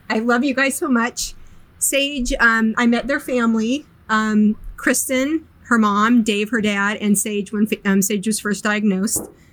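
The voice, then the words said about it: Choked up, emotional voice. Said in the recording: “I don't know why I'm getting choked up.”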